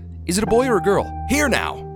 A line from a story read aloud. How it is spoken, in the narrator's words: cried Dr